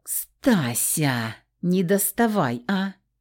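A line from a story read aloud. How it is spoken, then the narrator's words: Pleading drawl. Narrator (Russian): Протянула я просительно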